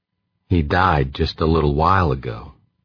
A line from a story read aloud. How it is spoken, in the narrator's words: said, his voice quiet